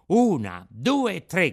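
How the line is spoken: Puppet shouting. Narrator (Italian): gridò il burattino

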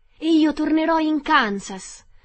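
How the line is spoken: Excited shout, clapping. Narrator (Italian): gridò battendo le mani

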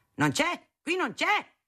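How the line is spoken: Shouting. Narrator (Italian): gridava

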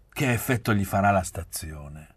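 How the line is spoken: Grumbled. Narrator (Italian): brontolai

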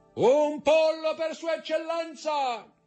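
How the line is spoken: Brigand bellowing at full lungs. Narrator (Italian): Il brigante, che si chiamava Peppino, gridò con tutta la forza dei suoi polmoni

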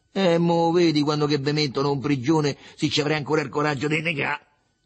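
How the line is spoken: Solemn shout. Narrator (Italian): gridò solenne Riccetto

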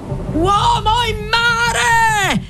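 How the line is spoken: Shouting. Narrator (Italian): gridò

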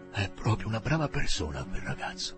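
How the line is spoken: Murmured. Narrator (Italian): mormorò

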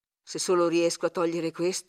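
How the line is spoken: Murmuring. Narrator (Italian): mormorai

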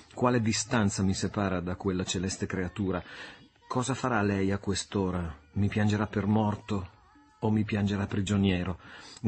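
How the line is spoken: Murmur. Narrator (Italian): mormorò egli

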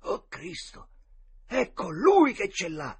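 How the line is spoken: Two boys exclaiming together. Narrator (Italian): esclamarono all'unisono i due ragazzi

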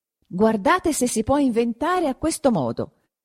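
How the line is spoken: Exclaimed again. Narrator (Italian): esclamò di nuovo Perpetua

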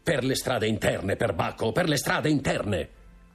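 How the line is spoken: Shouted. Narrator (Italian): gridò Franz

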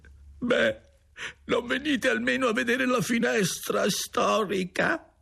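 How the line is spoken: Grief-stricken old man. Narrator (Italian): con voce affranta il vecchio disse

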